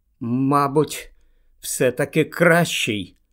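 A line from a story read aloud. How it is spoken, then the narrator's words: Trembling voice. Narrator (Ukrainian): тремтячим голосом відповів Гаррі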